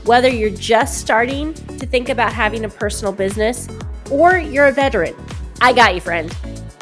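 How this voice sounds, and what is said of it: Congested, stuffy voice. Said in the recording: “I have a mild head cold, so I apologize if my voice sounds a little off ... slightly stuffy”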